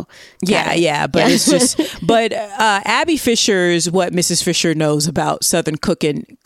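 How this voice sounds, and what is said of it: Southern US accent slipping out. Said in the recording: “See, in my Southern accent comes out.”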